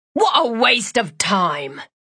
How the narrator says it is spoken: he grumbled

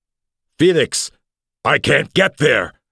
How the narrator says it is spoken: heard himself screech

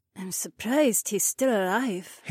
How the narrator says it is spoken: Hei Wan murmured

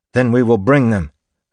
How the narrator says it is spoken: Spook snapped

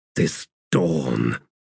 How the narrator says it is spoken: he said in a growl

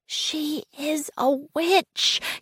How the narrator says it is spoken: he whispered

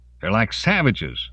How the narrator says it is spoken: a man's voice called out

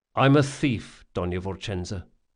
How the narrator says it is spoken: he said quietly

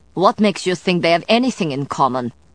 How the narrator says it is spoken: Sidonia snapped

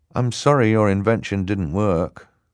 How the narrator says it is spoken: Klaus said sadly

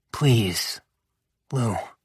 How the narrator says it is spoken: I whispered

